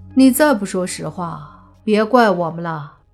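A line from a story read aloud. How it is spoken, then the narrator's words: Calm, flat. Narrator (Chinese): 莫凡淡淡的开口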